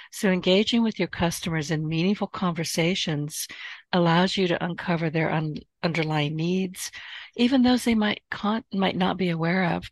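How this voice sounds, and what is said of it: Strained, failing voice. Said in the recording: “I am losing my voice ... she's really suffering this morning with allergies”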